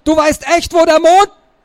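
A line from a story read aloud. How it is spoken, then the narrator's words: Deep breath, then roaring. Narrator (German): sagte, holte tief Luft und brüllte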